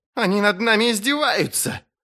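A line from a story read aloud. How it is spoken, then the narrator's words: Crackly voiced shout. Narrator (Russian): трескучим голосом вскричал лорд Смунд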